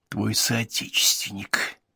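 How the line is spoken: Whisper. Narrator (Russian): прошептал Уальд

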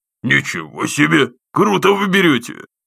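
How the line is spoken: Snort over the phone. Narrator (Russian): хмыкнул в трубку Ясенев

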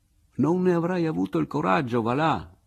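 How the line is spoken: Laughing. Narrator (Italian): dissi io ridendo

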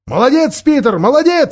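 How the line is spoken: Excited shout. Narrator (Russian): закричал Эдмунд, видя, что Мирас отступил на 1,5 шага

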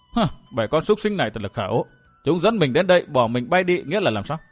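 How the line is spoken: Angry muttering. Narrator (Vietnamese): Lý Yến Hồng tức mình lẩm bẩm

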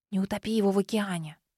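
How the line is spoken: Whisper right in ear. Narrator (Russian): прошептала прямо в ухо

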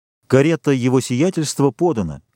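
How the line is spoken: Plain. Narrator (Russian): сказал он

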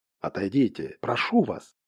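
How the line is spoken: Anguished whisper. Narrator (Russian): прошептал он, и в его голосе была такая мука

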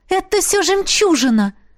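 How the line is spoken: Enthusiastic exclamation. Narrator (Russian): воскликнула я, восторженно

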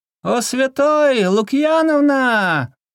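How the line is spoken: Young lady's pitiful wail. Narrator (Russian): жалостно вопила во след ему барышня

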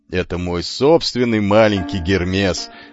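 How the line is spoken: Laughing. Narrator (Russian): смеялся Алкид

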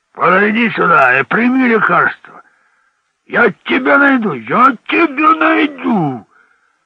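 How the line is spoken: Drunk irritated hoarse shouting. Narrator (Russian): Чей-то пьяный, раздраженный голос хрипло кричал

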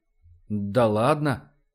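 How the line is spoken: Disconcerted mumble. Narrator (Russian): пробормотал обескураженный Вернер

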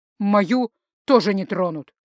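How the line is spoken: Sharp. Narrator (Russian): резко сказал Рихард

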